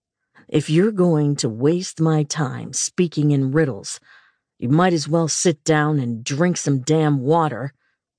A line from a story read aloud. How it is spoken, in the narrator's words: he said gruffly